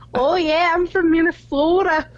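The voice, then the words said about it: Poor put-on Minnesota accent. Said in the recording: “I can do a Minnesota accent. ... So fucking bad.”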